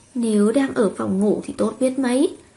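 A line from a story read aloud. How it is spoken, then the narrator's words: Soft husky muffled voice. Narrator (Vietnamese): Mạnh Cảnh Xuân vùi đầu vào trong ngực hắn, giọng khàn khàn nhỏ nhỏ, không biết thẹn nói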